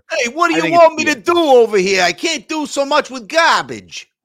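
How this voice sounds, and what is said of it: Cliche mob boss accent impression. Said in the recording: “I don't know why Bill's got that accent ... our worst Bill Belichick impersonation ... turn him into a comic cliche mob boss”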